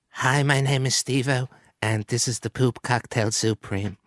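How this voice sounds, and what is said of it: Imitates another person's voice. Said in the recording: “my impression of Steve-O”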